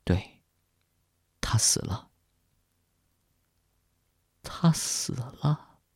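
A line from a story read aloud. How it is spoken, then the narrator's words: Sighing. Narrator (Chinese): 我叹息着说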